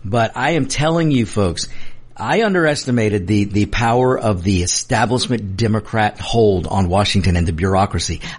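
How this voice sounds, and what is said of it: Strained, uncooperative voice. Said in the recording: “My voice is just trying not to cooperate today”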